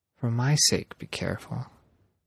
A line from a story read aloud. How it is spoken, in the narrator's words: quietly she said